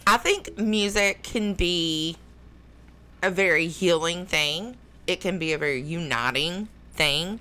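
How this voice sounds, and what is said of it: Southern American accent. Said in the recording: “I have a southern accent. I sound uneducated and dumb”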